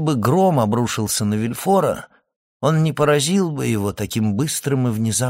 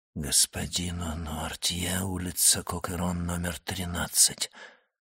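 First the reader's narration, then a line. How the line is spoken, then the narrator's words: Frightened whisper. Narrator (Russian): прошептал он, побледнев еще сильнее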